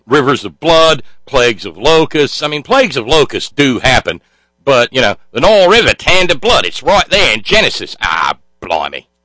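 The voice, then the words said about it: Cheesy put-on Australian accent. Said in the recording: “my cheesy Australian accent”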